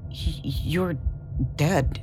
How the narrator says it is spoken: Nico stammered

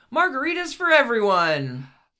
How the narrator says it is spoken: yelled

